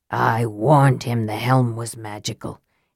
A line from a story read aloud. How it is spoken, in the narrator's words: he said softly